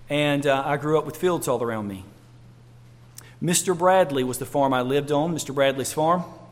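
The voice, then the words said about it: North Carolina Southern accent. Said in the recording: “I grew up in North Carolina. Most of you know that from my accent.”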